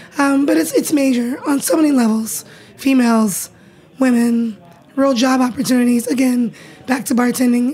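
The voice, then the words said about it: Hoarse, strained voice. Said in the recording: “So you have like emotional laryngitis.”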